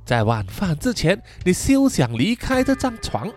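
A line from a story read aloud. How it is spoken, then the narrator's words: Whisper. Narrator (Chinese): 在他的耳边小声地说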